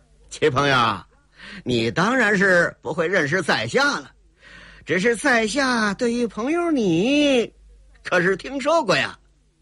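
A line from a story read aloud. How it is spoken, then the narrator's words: Forced chuckle, suppressed displeasure. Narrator (Chinese): 天狗星冯彤心里是老大的不高兴啊，强压着心里那份不自在，嘿嘿一笑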